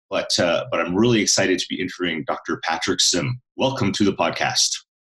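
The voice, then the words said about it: Rich, polished radio-style voice. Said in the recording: “you've got a wonderful radio voice”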